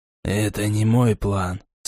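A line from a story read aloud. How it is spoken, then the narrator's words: Calm. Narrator (Russian): спокойно ответил Хан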